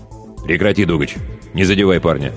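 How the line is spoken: Curt. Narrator (Russian): отрывисто бросил мастер Рогу

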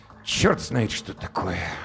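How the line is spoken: Grumbling mutter. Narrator (Russian): буркнул он

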